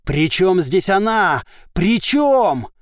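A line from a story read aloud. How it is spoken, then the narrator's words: Roar. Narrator (Russian): Он взревел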